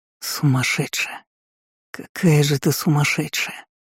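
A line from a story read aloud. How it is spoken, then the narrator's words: Broken whisper. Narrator (Russian): прошептал прерывисто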